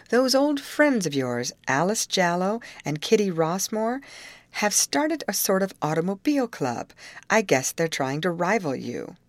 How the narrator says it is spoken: said with a chuckle

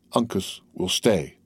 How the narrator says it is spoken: the young Mohican calmly answered in English

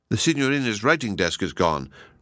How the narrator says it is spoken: replied Kenyon

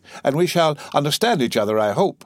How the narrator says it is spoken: cried the abbe

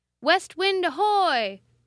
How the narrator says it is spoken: shouted the same officer

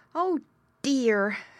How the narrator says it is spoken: Squinty grunted in his funny, squealing voice

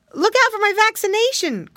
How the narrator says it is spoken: cried Curly

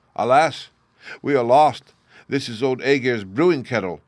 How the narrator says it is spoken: the cheeks of the sailors grew white with fear, and they dropped their oars and clung to the masts and ropes and cried out

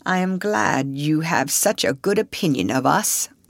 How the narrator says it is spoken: murmured the veteran actor

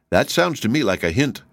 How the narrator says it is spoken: he said

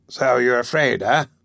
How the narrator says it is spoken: he sneered

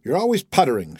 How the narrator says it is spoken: she said

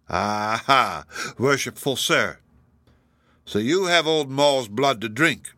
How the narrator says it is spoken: said he jeeringly

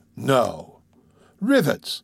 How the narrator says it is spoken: exclaiming

